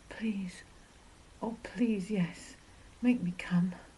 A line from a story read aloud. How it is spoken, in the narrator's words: I gasped